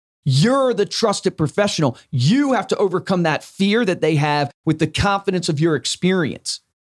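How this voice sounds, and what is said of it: Voice growing stronger and louder. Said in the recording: “notice how my voice is getting stronger, louder, right?”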